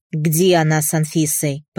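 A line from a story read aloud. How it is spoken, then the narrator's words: Impatient growl. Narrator (Russian): Прорычал, теряя остатки терпения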